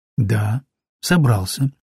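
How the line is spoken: Calm reply. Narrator (Russian): спокойно ответил я

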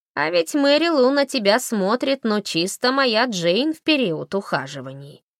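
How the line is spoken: Snide. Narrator (Russian): ехидно сказал Джон

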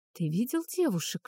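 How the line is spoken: Whispered question. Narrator (Russian): шепотом спросил Фарах

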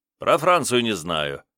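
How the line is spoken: Snorting remark. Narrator (Russian): хмыкнул министр

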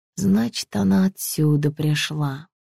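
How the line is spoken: Mutter. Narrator (Russian): пробормотала

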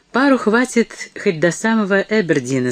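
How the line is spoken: Plain. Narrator (Russian): сказал он

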